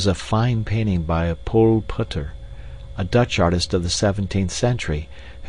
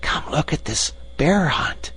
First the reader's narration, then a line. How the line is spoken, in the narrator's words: called Lambert in a loud whisper